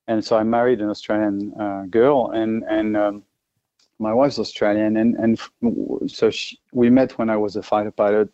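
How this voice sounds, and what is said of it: French accent. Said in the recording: “obviously I'm French uh, with my accent, but I'm Australian as well”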